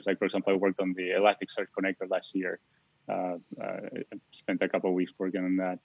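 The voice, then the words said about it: Argentine-accented English. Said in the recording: “if you haven't noticed from my accent, I'm from Argentina”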